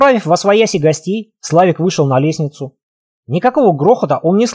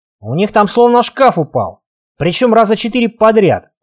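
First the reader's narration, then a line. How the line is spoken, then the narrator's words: Grumble. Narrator (Russian): проворчал Серега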